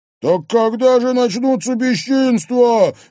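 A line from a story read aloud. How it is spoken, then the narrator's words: Cheerful loud yell. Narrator (Russian): весело завопил на весь дом Димка Трофимов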